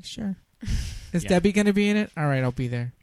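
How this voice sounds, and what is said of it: Imitates another person's voice. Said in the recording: “That was my Sofia Coppola impression... That was perfect... Spot on. It's like she's in the room.”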